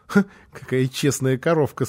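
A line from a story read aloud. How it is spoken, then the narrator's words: Speaking through laughter. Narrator (Russian): сказал он сквозь смех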